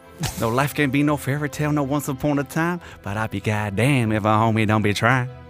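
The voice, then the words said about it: Attempted American accent, rapping lyrics. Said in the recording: “I went with the American accent. I tried something, didn't work.”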